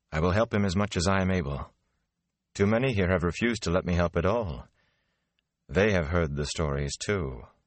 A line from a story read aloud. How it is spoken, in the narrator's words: she added dryly